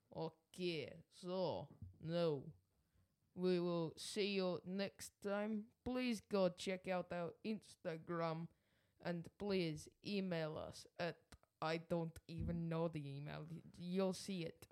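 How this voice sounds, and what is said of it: Put-on Russian accent. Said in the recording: “do your Russian accent, boy. ... Give me your Russian accent.”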